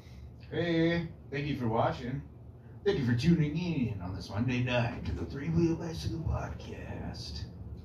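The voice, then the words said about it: Announcer-style voice. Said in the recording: “announcer voice”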